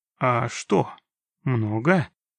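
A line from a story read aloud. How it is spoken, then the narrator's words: Uncertain question. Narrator (Russian): неуверенно уточнил Проныра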